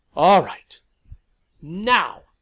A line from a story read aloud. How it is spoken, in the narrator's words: Lavinia barked at the vampires